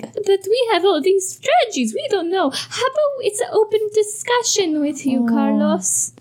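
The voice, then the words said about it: Bad high-pitched stereotypical Italian accent. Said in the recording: “That was a really bad Italian accent. I went high. I think in Mario. ... Yeah, you went too high. ... Stereotypical.”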